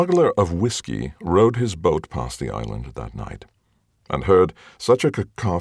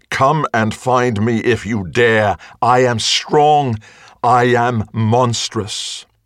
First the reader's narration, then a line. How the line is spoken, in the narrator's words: her beast was furious, and so screamed out